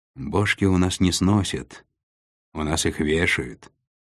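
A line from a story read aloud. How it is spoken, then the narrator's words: Sighing container. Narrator (Russian): вздохнул контейнер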